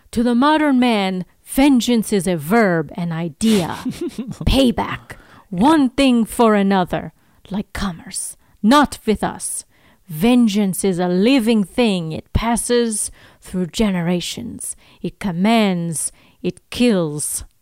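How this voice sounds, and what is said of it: Inconsistent put-on accent. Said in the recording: “I don't know what accent I was trying to do there. I probably floated through a few different things”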